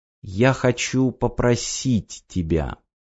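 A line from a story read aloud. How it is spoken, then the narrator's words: Quiet speech. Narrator (Russian): тихо сказала Ева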